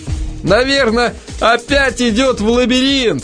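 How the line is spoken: Laughing. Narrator (Russian): засмеялся Эл

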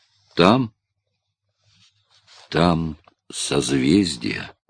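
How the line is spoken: Quiet answer. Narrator (Russian): Гуннар тихим голосом ответил

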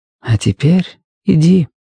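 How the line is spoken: Soft, gentle. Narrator (Russian): мягко проговорила Дженни Хэмпстед

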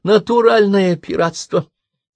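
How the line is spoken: Nasal complaining. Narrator (Russian): гнусаво пожаловалась она

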